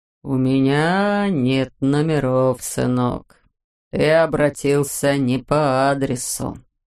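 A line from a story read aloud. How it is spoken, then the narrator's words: Slow speech. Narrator (Russian): медленно произнес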